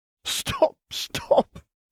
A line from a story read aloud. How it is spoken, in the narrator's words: choked Tom